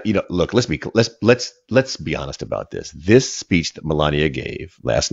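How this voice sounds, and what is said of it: Usual voice. Nothing is said of it.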